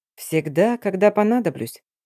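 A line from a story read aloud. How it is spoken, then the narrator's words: Quiet reply. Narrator (Russian): тихо отозвался мужчина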